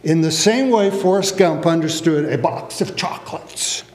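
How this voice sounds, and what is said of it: Forrest Gump character voice imitation. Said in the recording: “That's my imitation. ... You do love my Forrest Gump imitation.”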